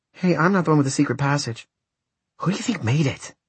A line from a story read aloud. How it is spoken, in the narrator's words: Maria's whisper sounded explosive next to Matt's ear